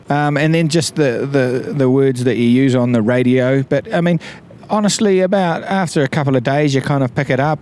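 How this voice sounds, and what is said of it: New Zealand accent. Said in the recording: “the New Zealand accent”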